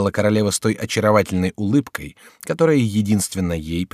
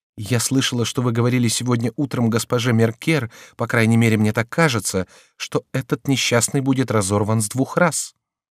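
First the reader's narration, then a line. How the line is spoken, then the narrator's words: Timid objection, queen. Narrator (Russian): возразила робко королева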